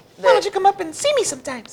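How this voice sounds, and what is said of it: Cartoon character voice. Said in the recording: “Do that voice again.”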